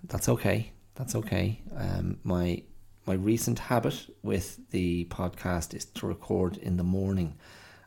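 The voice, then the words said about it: Tired, fatigued voice. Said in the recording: “I can hear in my voice. There's a, there's a tiredness, I have a bit of a, a bit of fatigue in the body.”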